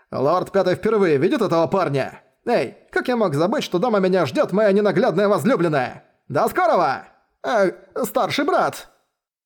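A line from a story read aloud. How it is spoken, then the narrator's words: Rapid chatter. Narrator (Russian): Затараторил холодец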